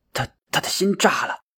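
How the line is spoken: Trembling voice. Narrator (Chinese): 老三声音颤抖的说道

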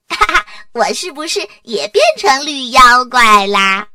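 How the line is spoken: Laughing. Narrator (Chinese): 多拉哥哥笑着说

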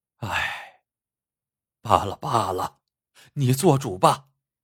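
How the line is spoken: Sighing. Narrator (Chinese): 金寡妇叹口气说

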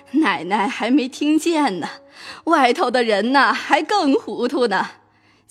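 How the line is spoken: Laughing. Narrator (Chinese): 又笑了一声道

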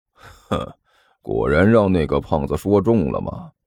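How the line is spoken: Sneering. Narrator (Chinese): 尼才冷笑了一声

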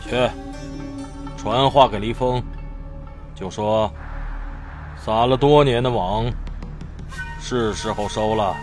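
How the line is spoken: Deep, grave voice. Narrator (Chinese): 蓝袍男子沉声道

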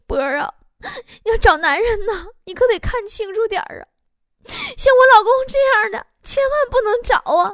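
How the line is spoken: Tearful, plaintive. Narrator (Chinese): 她两眼发红，哭的呀，就幽怨的跟我说

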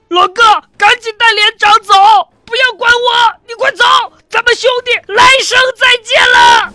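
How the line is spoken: Shouting amid gunfire. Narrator (Chinese): 他一边扫射一边大喊着

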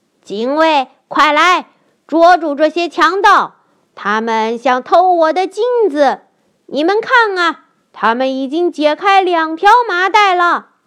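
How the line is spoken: Loud shout. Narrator (Chinese): 巫师大声喊道

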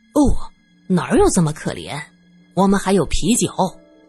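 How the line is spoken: Mocking. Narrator (Chinese): 罗隐嘲笑

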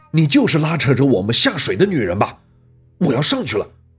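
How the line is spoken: Yelling. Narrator (Chinese): 我冲着那女的吼道

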